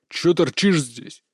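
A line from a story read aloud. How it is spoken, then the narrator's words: Growling snap. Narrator (Russian): рыкнул один из них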